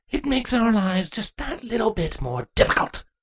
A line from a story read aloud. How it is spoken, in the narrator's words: Queen Tempora spat